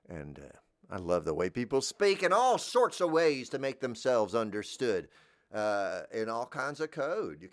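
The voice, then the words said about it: Southern American accent. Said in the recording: “I'm legitimately from a southern place.”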